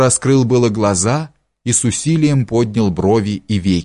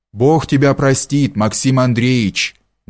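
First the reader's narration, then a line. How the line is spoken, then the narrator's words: Men speaking dully in unison. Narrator (Russian): глухо заговорили мужики в один голос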